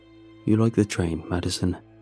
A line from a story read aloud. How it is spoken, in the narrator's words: says